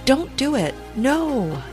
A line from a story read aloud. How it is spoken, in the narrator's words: the man cries